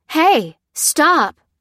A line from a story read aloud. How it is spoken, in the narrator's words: cried